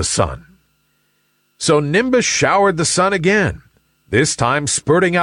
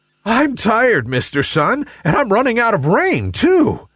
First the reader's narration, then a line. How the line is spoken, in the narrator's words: gasped Nimbus